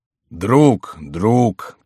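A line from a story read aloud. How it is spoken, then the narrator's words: Sad interruption. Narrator (Russian): печально прервал его король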